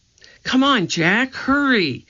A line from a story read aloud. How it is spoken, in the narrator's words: cried Annie